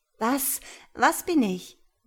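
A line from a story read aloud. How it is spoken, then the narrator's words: Breathless timid question. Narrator (German): wagte Ria atemlos zu fragen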